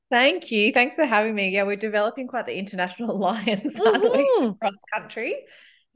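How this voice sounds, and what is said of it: Australian accent. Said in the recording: “In case you haven't picked up from my accent, I live and have always lived in Melbourne, Australia.”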